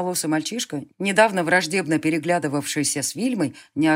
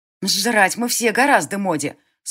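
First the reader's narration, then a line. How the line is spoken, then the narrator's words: Through gritted teeth. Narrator (Russian): Сквозь зубы ответила Ринд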